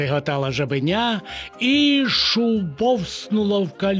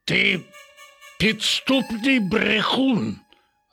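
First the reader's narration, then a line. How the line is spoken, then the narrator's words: Growling. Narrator (Ukrainian): загарчав Рекс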